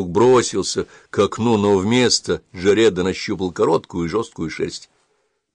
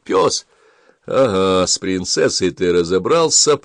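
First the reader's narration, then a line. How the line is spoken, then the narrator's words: Grumbling. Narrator (Russian): проворчал Джаред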